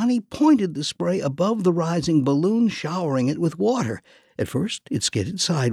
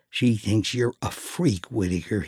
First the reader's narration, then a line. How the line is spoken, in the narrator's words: muttered